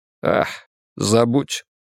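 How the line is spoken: Captain sighing. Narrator (Russian): капитан вздохнул

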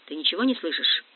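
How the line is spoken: Close many-voiced whisper. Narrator (Russian): Шепот, близкий, многоголосый шепот

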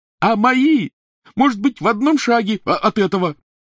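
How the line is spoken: Shrieking. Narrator (Russian): завизжал Рон

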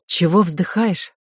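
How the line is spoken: Plain. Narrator (Russian): спросила Ко

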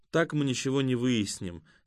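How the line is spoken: Regretful. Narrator (Russian): сказала Катя сожалеющим тоном

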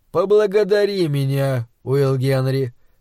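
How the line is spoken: Soft but insistent. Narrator (Russian): сказал он мягко, но тон его был настойчив, словно учитель обращался к непокорному ученику

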